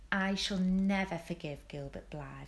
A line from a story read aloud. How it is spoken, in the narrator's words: said Anne firmly